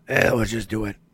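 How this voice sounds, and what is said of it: Gravelly, raspy smoker's voice. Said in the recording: “my best Buster Keaton impersonation ... the guy sounds like he smoked 14 packs a day.”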